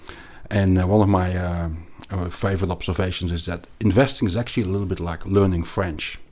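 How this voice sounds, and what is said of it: Belgian-accented English. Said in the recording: “like you can probably hear from my accent, I grew up in Belgium”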